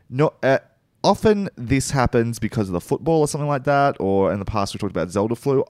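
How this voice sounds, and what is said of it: Croaky, sick-sounding voice. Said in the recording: “Apparently I'm sick... if you can tell from my voice, it's pretty croaky.”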